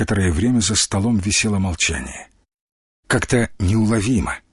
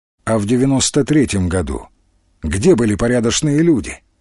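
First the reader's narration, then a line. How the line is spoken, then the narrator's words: Plain question. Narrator (Russian): спросил Тимофей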